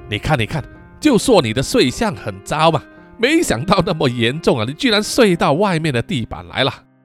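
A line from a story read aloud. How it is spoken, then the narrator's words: Mocking laugh. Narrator (Chinese): 阿福嘲讽的笑着说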